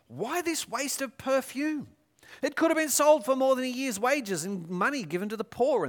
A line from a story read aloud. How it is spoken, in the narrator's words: Some of those present were saying indignantly to one another